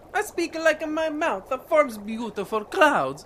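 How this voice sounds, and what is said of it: Funny foreign accent. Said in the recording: “Why have you got a funny accent?”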